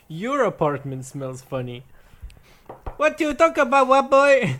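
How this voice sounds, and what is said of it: Put-on foreign accent imitation. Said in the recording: “That's the wrong accent”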